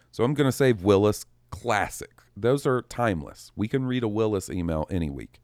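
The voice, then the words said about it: Tired, strained, fading voice. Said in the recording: “My voice is starting to go, and I'm pretty tired.”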